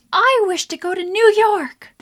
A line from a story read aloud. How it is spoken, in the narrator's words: the redhead shouts